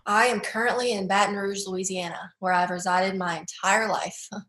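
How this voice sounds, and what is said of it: Mild Southern American accent. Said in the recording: “you've got a Southern accent, but I don't think it's the strongest Southern accent I've heard... I do have a little bit of a twang”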